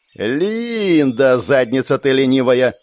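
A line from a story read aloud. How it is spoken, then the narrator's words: Angry drawl. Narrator (Russian): зло протянула Герда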